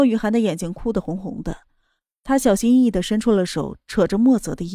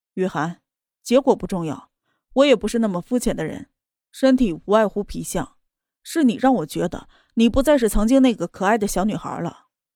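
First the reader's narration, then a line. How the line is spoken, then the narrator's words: Cold. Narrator (Chinese): 他冷冷的说道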